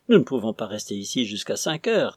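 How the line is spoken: Exclaiming. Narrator (French): s'exclama Mrs

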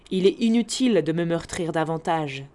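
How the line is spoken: Plain. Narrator (French): dit-elle

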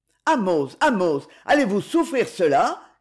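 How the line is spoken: Officer shouting. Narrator (French): cria l'officier

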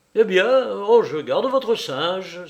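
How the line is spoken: Exclaiming. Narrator (French): s'écria M

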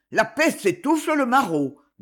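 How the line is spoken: Grumbled. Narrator (French): grommela le bourgeois

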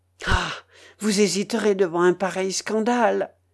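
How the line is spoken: Pleading. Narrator (French): dit-il d'un ton de prière

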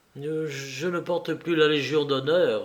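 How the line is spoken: Timid reply. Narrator (French): répondit timidement Louis

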